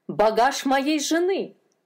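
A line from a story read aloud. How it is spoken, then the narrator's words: Shouting. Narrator (Russian): закричал он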